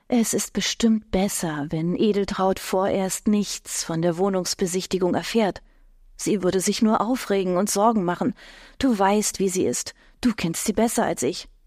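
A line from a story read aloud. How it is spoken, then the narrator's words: Conspiratorial murmur in ear. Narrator (German): raunt ihm verschwörerisch ins Ohr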